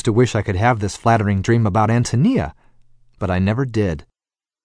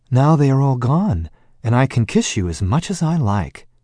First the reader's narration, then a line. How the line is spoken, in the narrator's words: with a soft sigh, and said